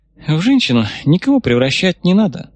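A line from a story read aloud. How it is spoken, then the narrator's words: Sighing. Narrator (Russian): вздохнула бывший замкомэск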